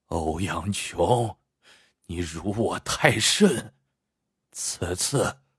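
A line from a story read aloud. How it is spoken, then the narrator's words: Panting with anger. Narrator (Chinese): 孔明石喘着粗气说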